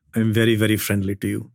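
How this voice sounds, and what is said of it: Put-on Indian accent. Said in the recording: “Can you do an Indian accent”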